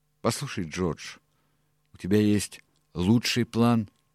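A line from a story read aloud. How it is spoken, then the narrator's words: Said slowly. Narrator (Russian): медленно вымолвил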